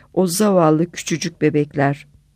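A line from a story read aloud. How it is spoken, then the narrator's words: Muttering. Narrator (Turkish): diye mırıldandım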